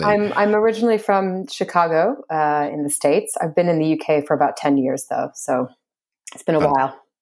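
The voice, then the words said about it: American accent, not a London one. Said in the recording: “that's not a broad London accent that we're hearing there”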